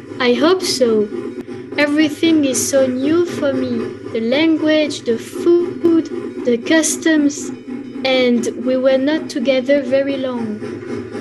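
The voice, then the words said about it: French accent speaking English. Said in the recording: “do I hear an accent? ... Yes, I'm French. I come from Paris. My English not so good.”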